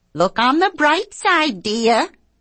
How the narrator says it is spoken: she says in her bitchiest voice

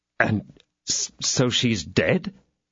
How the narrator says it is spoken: stammered D'Artagnan

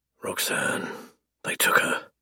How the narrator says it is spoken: I rasp

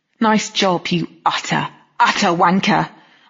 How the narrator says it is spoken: I spat, before the choke in my voice could turn into an actual sob

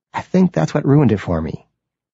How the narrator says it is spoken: he says

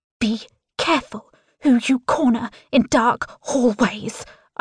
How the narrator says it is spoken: hiss, liquid heat surging through my veins

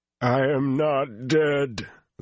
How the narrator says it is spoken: the voice howled

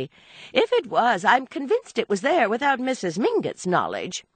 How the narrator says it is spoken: Archer put in hastily

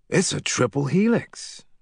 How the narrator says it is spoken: Rennie Quinn said, his voice flush with awe

